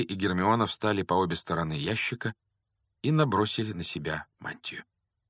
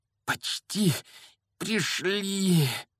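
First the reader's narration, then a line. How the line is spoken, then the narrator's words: Heavy, breathless exhale. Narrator (Russian): Тяжело выдохнул Гарри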